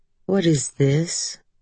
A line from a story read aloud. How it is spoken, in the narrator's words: Her voice was mild, as though asking a perfectly reasonable question